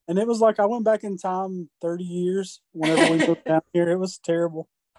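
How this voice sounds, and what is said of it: Southern American accent. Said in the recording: “you sound Southern.”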